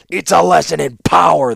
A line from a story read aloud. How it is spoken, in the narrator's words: the warlord shouted in return